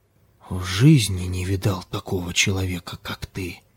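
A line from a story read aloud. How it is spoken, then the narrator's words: Stunned whisper. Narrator (Russian): Прошептал ошеломленный Ким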